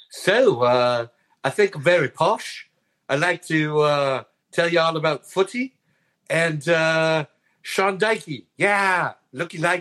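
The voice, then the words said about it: Bad imitation of another person's accent. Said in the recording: “I'll give you my best, Pesci ... That might be the worst Paul Peschisolido accent I've ever heard in my life.”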